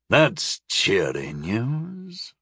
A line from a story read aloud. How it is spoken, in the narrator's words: Lyko said gloomily